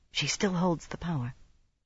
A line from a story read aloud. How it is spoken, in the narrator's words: Somerin whispered again